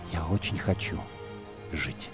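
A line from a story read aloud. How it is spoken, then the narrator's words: Mouthed whisper. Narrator (Russian): одними губами прошептала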